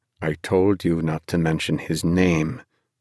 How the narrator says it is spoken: he said

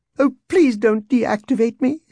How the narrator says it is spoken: C-3PO whined

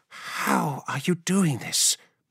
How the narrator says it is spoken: breathed Ilya

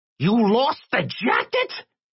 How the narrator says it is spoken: screeched

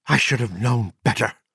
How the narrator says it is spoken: she breathed

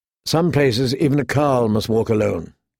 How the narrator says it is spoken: Dany said

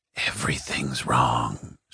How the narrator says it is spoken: whispered

